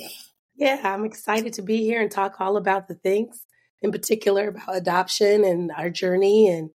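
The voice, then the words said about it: Slightly hoarse voice. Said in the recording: “my voice is a little bit hoarse today ... just sound like I'm sexy”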